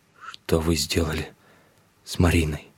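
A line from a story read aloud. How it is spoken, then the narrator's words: Strained hoarse croak. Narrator (Russian): прохрипел, с трудом разлепив ссохшиеся губы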